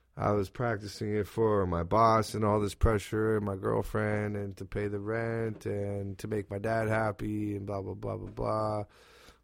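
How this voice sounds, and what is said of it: Raspy voice. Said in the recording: “There's my raspy voice right there sucking in fucking welding rods for 5 years.”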